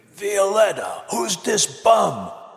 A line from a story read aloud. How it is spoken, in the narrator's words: yelled across the room in a strained voice